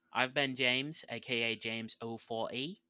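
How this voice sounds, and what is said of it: Put-on British accent. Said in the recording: “do the British voice”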